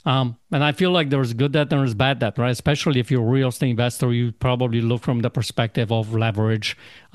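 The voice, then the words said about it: Noticeable non-native English accent. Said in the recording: “my accent sometimes doesn't make it very clear”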